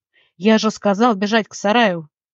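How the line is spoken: Growl. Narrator (Russian): рыкнул он

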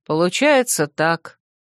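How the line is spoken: Calm confirmation. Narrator (Russian): подтвердил Финист спокойно

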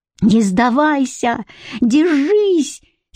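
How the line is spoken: Desperate near-howling shout. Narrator (Russian): стискивая потные кулаки, закричал и почти взвыл

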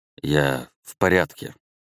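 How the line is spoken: Disoriented mumble. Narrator (Russian): пробормотал полностью дезориентированный

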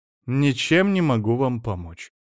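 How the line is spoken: Cold. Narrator (Russian): холодно сказала Венера

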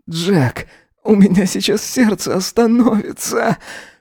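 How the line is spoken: Wheezing, hoarse. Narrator (Russian): хрипел он

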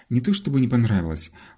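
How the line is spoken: Sighing. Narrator (Russian): вздохнул Джиджи

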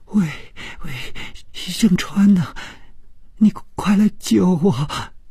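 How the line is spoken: Tearful, terrified voice. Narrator (Chinese): 这声音充满了哭泣，并且非常的恐惧

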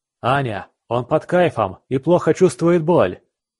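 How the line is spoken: Shout. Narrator (Russian): крикнул

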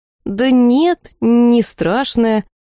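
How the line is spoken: Doubtful drawl. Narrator (Russian): с сомнением протянул Риф

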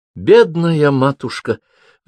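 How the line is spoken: Sighing. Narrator (Russian): вздохнула она

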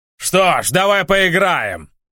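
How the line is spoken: Roaring. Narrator (Russian): взревел босс

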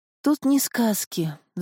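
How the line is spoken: Sighing woman. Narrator (Russian): вздохнула волшебница

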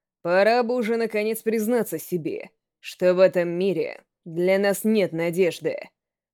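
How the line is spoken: Lowered, calm voice. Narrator (Russian): Он вдруг понизил тон и продолжил уже спокойным голосом

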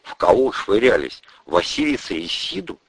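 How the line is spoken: Quiet question. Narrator (Russian): тихо спросила Ольга

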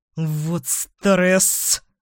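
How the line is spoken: Hissed. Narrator (Russian): прошипел

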